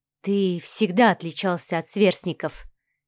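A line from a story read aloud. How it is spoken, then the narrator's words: Quiet, thoughtful. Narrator (Russian): тихо и задумчиво произнесла Инга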